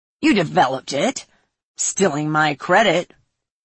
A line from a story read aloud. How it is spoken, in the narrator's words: Grimmy said and snorted